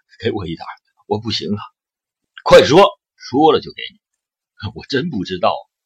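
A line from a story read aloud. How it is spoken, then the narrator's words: Trembling, tearful, gasping. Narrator (Chinese): 那个人哆嗦着，流着鼻涕和眼泪，不断的喘着粗气说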